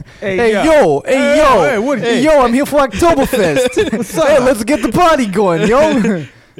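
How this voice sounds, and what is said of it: Brash New Jersey guy voice. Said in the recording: “It's the Jersey boy.”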